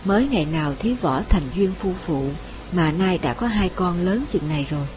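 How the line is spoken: Tender smiling woman. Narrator (Vietnamese): Trương Tam Nương âu yếm nhìn chồng mỉm cười, mà rằng

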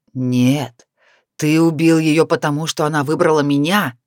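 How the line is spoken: Furious restrained growl. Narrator (Russian): с яростью прорычал барс, пытаясь усмирить гнев в себе

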